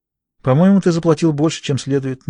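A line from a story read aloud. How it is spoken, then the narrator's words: Innocent little voice. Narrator (Russian): невинным голоском заметила Таппинс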